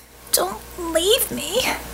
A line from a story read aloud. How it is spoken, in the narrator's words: Kara begged